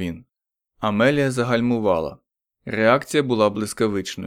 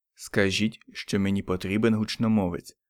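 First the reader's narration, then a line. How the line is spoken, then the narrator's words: Said quietly. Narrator (Ukrainian): тихо промовив Річардс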